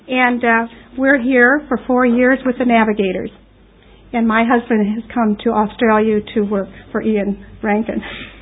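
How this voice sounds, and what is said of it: American accent. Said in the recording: “You probably noticed by my accent that I'm a little different... oh, you're an American... But I am from America.”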